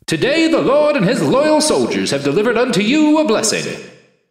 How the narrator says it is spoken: voice boomed

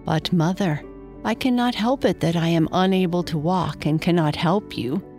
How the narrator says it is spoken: sighed Freyo

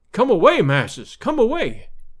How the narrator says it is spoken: he cried, his eyes starting from his head

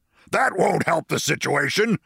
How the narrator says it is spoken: snapped the general with cold military logic

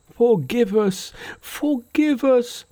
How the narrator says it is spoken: Terrified out of their wits, the other officers, kneeling before Monkey, cried

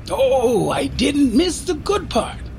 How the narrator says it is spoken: exclaimed Michaela

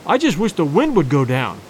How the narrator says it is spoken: I said

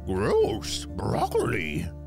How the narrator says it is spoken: Peppy growled through the mouthful of broccoli tree

